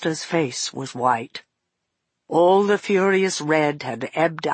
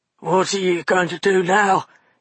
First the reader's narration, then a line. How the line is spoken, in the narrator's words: he gasped